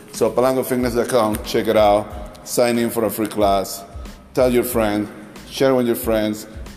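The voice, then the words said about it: Strong foreign accent. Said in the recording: “You don't understand my accent, it's okay, you're not the only one. ... I wish that I had some closed caption”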